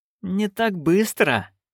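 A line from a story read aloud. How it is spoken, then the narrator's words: Through gritted teeth. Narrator (Russian): процедила герцогиня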